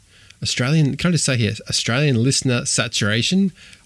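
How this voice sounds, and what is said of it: Usual voice. Nothing is said of it.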